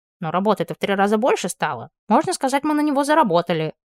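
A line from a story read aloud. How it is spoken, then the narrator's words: Grumbling. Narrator (Russian): проворчал Сесалий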